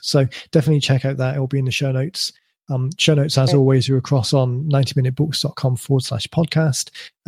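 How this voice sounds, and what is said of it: Slightly croaky voice. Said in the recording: “My voice is starting to go a little bit croaky”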